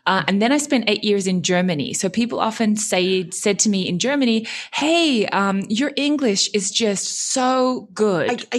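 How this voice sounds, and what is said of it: Unusual Australian accent, slight German twang. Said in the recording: “I can tell by the accent that you are definitely not Japanese ... So I have the strangest accent ... So I'm originally Australian ... I somehow have this like weird German twang”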